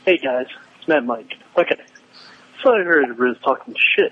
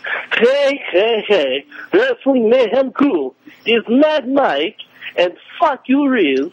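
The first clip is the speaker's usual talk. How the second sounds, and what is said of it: Put-on Russian accent. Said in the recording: “give him my Russian accent”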